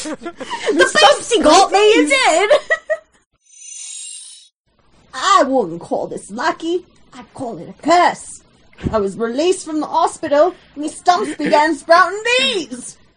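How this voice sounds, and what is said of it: Deranged but friendly groundskeeper voice. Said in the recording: “he sounds like a deranged but friendly like groundskeeper”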